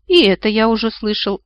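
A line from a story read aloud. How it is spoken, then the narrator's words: Sighing. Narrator (Russian): вздохнул ушастый владыка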